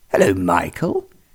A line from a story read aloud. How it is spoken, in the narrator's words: exclaimed